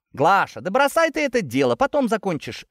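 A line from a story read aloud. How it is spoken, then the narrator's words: Cheerful shout, young woman. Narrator (Russian): весело крикнула одна из плескавшихся девиц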